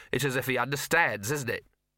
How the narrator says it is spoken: Gaspode barked sharply

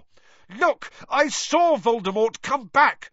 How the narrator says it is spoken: Harry shouted

